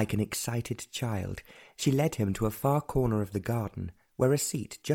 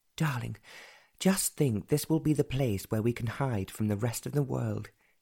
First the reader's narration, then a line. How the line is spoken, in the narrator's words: she sighed